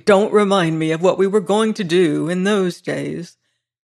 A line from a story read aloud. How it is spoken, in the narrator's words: exclaimed Carlyle bitterly